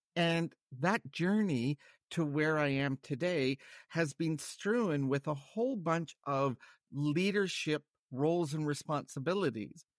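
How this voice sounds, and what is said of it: North American accent. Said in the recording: “overseeing technology for a international organization in North America, hence my accent.”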